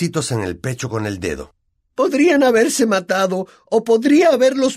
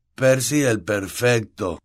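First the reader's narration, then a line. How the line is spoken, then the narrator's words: Murmuring. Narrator (Spanish): murmuró Fred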